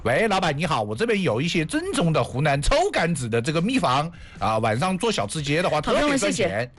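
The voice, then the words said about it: Put-on Hunan accent. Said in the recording (Chinese): “你知道为什么我要用这样的口音跟大家说话吗？ ... 我们湖南的 ... 你听我这个口音这么正宗”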